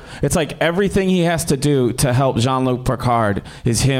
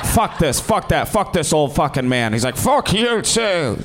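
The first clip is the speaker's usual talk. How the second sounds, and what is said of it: Imitates another person's voice. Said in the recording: “That's a really good impression.”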